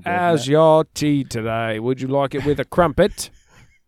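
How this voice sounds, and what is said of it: Put-on British accent. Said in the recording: “What's your British accent, dude?”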